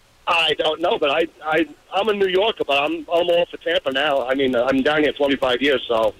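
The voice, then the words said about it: New York accent. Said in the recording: “Time to lose that accent, don't you think?”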